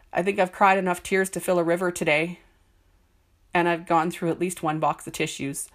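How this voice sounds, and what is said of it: Congested, stuffed-up voice. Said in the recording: “I sound a little stuffed up”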